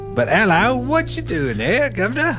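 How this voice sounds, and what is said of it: Fake English accent. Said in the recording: “an English accent ... my fake English accent”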